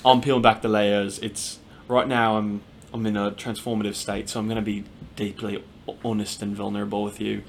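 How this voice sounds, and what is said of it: Put-on Australian accent. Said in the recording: “I forgot the accent already. ... She's Australian now.”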